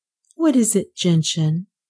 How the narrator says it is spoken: Nan asked in words almost as soft as the sigh

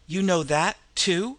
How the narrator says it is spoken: he stammered

